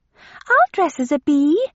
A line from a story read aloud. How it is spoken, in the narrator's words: cried Lydia excitedly